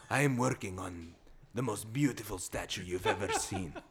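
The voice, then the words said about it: Sexy Antonio Banderas impression. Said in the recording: “Why does he sound like Antonio Banderas? ... It sounded sexy that way. ... You do a good Antonio Banderas.”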